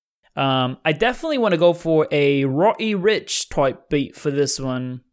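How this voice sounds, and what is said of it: Put-on British accent. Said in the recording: “I don't know why you said that in a British accent”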